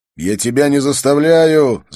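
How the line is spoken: Shouting. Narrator (Russian): закричал я

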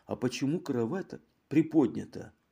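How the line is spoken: Timid question. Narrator (Russian): робко спросила

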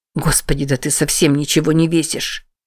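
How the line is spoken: Mutter. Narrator (Russian): Пробормотал он

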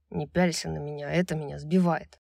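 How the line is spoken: Through gritted teeth. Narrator (Russian): сказал сквозь зубы

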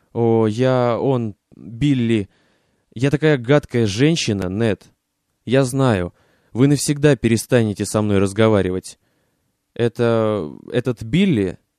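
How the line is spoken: Stammering. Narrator (Russian): начал он, запинаясь

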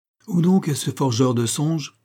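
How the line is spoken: Exclaiming. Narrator (French): s'écriait-il

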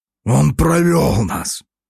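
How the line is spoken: Mercenary's strained wheeze. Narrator (Russian): С трудом прохрипел сидящий на коленях подле Соболева наемник

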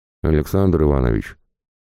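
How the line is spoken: Grumbling mutter. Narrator (Russian): буркнул он

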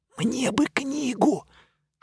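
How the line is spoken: Whispered. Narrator (Russian): Шепотом сообщил я

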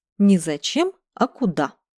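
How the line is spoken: Stern correction. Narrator (Russian): строго поправил

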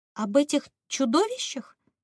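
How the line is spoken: Confused repeating. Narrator (Russian): растерянно повторила Ириска

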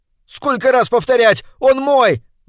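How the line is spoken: Piercing shout. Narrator (Russian): закричал он пронзительно

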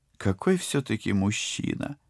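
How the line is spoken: Dreamy sigh. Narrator (Russian): невпопад вздохнула Полина

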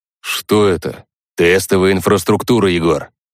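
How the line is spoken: Snorting. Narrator (Russian): фыркнул Юра

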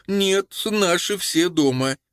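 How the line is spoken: Uncertain woman's voice. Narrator (Russian): сказала прекрасная преступница, но голос ее звучал как-то неуверенно

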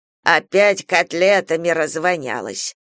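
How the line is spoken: Old man's good-natured grumble. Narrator (Russian): проворчал беззлобно старик

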